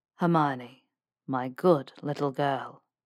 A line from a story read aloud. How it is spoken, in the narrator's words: he purred